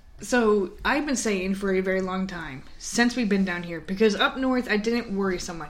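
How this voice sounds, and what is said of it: Loud, yelling voice. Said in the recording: “I feel like I'm coming off very loud. Am I loud? ... Probably ... I feel like I'm yelling. ... Sorry if I'm yelling.”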